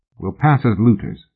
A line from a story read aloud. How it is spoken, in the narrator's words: Mallory said quietly